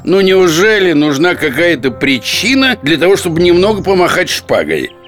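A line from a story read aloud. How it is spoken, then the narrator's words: Menacing pronouncement. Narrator (Russian): Портос грозно нахмурившись изрек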